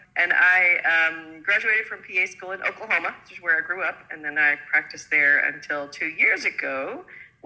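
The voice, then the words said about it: American accent. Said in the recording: “As you may be able to tell by the accent, I'm not a Kiwi. I grew up in the States.”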